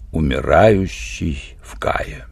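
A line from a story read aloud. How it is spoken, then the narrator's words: Quiet repetition. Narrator (Russian): Тавель негромко повторил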